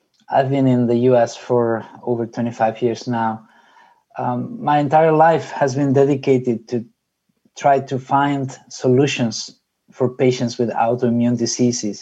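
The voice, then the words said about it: Spanish accent in English. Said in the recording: “perhaps you can tell by my accent that I am from Spain”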